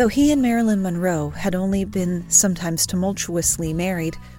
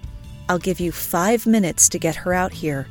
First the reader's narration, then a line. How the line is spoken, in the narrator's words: said DiMaggio